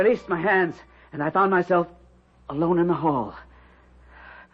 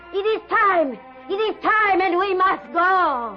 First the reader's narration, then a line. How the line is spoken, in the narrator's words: suddenly, Ilse's mother shouted